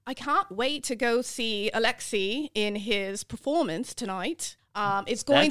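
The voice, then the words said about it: Put-on British accent, well done. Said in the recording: “British, really? Everybody knows how to do a British accent. ... A British accent? ... That's very good. ... Yeah, that was really good.”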